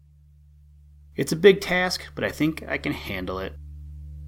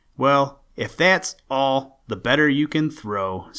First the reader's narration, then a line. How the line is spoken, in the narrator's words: said Jack